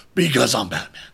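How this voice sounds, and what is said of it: Batman impression voice. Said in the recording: “best Batman impression”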